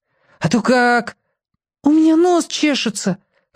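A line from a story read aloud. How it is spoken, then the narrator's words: Whining. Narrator (Russian): хныкал Клякса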